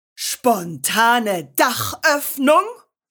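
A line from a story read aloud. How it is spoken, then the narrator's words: Thundering. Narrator (German): donnerte der Direktor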